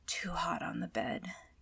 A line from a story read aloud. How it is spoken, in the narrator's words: Catra mutters